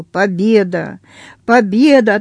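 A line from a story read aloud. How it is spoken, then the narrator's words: Drunk, laughing. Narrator (Russian): Напившись, Петр засмеялся и сказал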